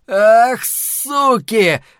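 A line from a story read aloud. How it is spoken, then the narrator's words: Man shouting. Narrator (Russian): закричал мужчина с винтовкой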